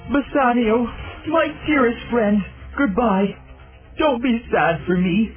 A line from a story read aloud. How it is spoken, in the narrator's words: sobbed Antonio